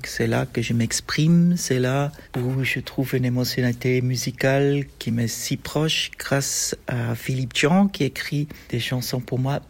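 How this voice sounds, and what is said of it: Non-native French accent. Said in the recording (French): “Vous entendez avec mon accent que le français n'est pas ma première langue”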